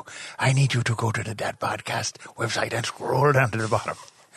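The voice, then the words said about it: Poor put-on Chinese accent, sounding Irish. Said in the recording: “that's the worst Chinese accent, accent I've ever heard anyone do ... I thought you were doing a leprechaun version of Liam Neeson ... your Irish action hero Chinese accent”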